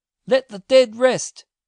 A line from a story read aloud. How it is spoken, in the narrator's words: cried the landlord, with a trembling voice